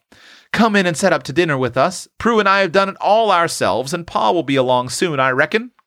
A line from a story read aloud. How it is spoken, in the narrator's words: cried Tilly